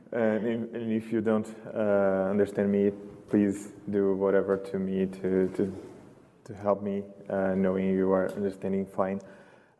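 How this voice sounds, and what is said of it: Brazilian-accented English. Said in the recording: “a Brazilian accent”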